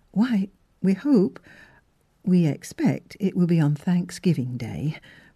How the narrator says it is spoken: faltered Miss Philura, trembling visibly in view of the near approach of her great happiness

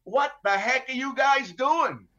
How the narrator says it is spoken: I'm yelling out

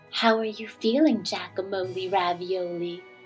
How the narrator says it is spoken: his sister would whisper

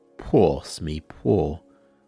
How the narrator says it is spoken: said the captain in an awful voice

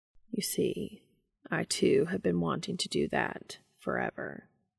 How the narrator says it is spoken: Castiel mumbled

